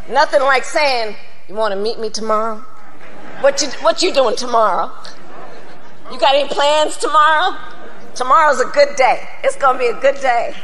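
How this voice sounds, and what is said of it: Unconvincing put-on accent. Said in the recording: “What was the accent?... she can't do it.”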